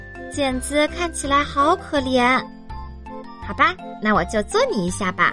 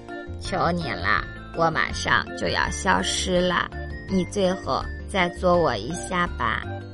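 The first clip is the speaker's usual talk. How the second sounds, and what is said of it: Small, weak, feeble voice. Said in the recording (Chinese): “用细小又虚弱的声音说”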